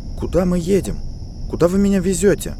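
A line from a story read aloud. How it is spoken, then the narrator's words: Strained, hiding panic. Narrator (Russian): выдавила она из себя, стараясь скрыть панику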